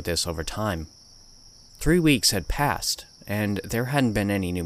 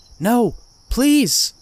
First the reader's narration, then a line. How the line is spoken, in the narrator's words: she cried